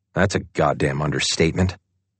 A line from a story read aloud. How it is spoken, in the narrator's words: Madeline Perry mutters something, and Stahl is sure she just said